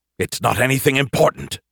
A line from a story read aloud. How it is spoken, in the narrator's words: he snapped